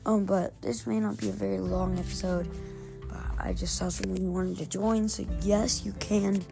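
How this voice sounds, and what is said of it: Raspy morning voice. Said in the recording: “I'm recording this in the morning, so my voice is a little bit, I don't know, just raspy”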